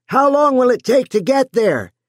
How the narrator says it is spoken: Joe yelled

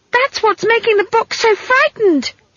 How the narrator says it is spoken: she shrieked in his ear

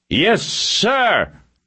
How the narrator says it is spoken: 100 voices yelled

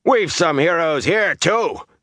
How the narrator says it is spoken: Darl said in a loud, rough voice

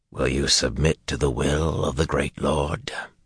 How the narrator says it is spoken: Not a demand, just a perfunctory question in that rasping voice

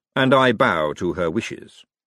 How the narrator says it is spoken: said Lord Vetinari smoothly

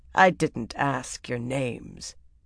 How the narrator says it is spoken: Taim cut in coldly

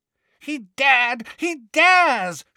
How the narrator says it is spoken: shrieked Bellatrix incoherently

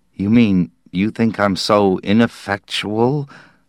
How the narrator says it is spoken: Slade mumbled

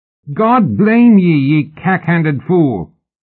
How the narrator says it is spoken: Mallory bellowed

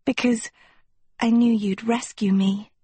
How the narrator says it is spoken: Sophie breathed

